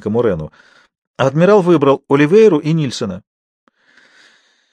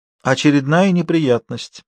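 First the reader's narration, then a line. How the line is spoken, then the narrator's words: Crushed, despondent voice. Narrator (Russian): произнесла она убитым голосом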